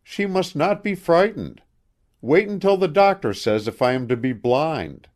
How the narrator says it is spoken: cried Milly

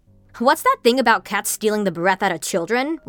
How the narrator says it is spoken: Larry said

